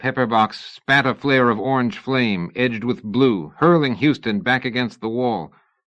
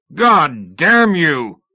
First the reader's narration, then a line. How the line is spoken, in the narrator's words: Houston roared